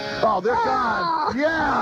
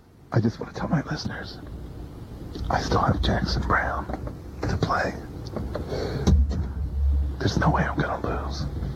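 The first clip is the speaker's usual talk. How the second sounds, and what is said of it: Soft whispered voice. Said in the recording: “Are you doing your soft persona now? ... This is me just whispering to my listeners.”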